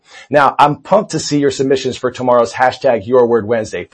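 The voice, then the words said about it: Hoarse, mostly lost voice. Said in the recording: “I lost my voice. Yep, I was outside in the cold yesterday, not wearing my jacket”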